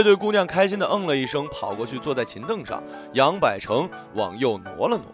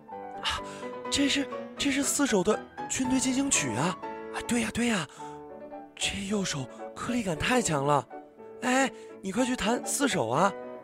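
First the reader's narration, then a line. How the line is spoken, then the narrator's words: Low excited girls' voices. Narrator (Chinese): 女孩们开始低声叫道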